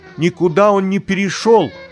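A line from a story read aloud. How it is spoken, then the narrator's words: Mother shouting. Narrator (Russian): крикнула Богданова мама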